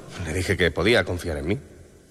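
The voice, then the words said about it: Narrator voice. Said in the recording (Spanish): “poner voz de narrador ... esa es una voz perfecta de narrador”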